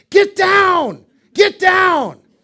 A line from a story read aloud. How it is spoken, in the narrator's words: someone yelled at a flying object